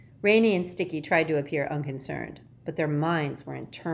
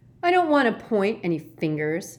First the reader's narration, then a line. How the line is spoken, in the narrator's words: said sulkily